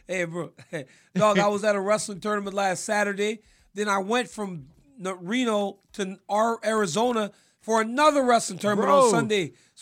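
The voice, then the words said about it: Raspy, worn-out voice. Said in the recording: “you been screaming, bro? You got the raspy bro, voice. ... So the boy voice is just gone.”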